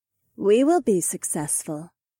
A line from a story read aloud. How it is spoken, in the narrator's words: said as calmly as if she was just reading the day's weather forecast